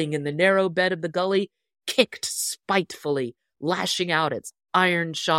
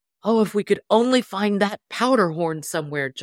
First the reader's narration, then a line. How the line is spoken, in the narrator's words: exclaimed